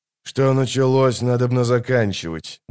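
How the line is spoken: Muttering. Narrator (Russian): буркнул Геральт

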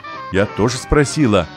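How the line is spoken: Laughing mother. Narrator (Russian): засмеялась мама

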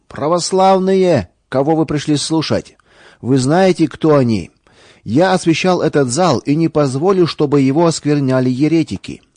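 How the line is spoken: Loud. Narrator (Russian): священник громко сказал

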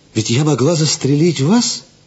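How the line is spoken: Exclaiming. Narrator (Russian): воскликнула она

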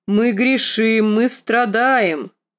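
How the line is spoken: Loud booming bass. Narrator (Russian): проговорил он гулким басом, куда громче, чем ее отец

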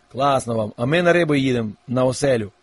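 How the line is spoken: Plain. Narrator (Ukrainian): сказав Лесик

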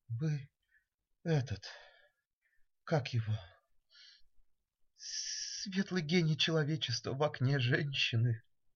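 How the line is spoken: Older woman, timid. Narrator (Russian): немолодая гражданка робко сказала

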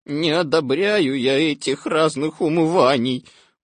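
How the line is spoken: Grumbling. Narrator (Russian): ворчал Я

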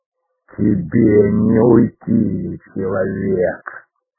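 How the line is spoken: Growling creature voice from above. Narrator (Russian): раздался рычащий голос прыгуна откуда-то сверху

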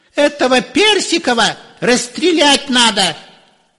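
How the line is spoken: Shrill shout. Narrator (Russian): чей-то визгливый голос кричал

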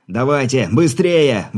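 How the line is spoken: Urgent shout. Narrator (Russian): выкрикнул Игорь

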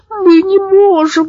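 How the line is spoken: Whimpering. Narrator (Russian): захныкал Зэп

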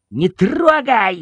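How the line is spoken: Shouting boy. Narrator (Russian): закричал мальчик

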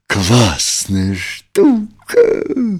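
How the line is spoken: Admiring exclamation in chorus. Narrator (Russian): Друзья восхищенно хором воскликнули

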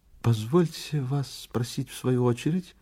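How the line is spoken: Timid cough. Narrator (Russian): робко закашлял визави

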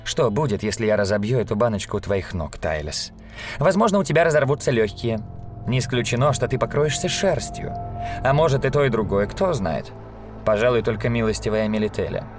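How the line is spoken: Calm. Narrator (Russian): спокойно сказала она

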